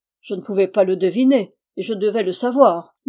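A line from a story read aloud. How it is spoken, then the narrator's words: Irritated, menacing. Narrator (French): dit-il d'un ton irrité et menaçant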